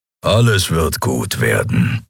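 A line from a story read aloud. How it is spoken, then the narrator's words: Low grumble. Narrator (German): brummte Keru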